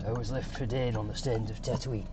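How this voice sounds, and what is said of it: Poor Temuera Morrison impression. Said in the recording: “terrible Temuera Morrison impression.”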